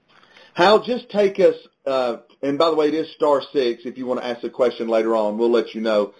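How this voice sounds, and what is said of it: American Southern accent. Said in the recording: “I've got enough Southern accent for both of us”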